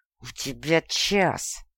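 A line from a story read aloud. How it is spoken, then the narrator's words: Hissing, voice breaking. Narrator (Russian): прошипел он срывающимся от эмоций голосом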